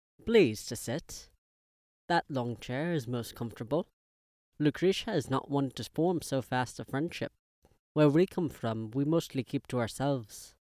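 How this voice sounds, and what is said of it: Character voice with strong foreign accent. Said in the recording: “His accent was far more pronounced than that of his niece.”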